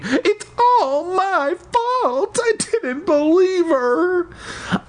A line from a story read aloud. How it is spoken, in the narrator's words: Aunt Louise wailing